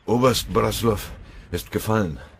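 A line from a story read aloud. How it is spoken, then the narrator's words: Panting blurt. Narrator (German): stieß keuchend hervor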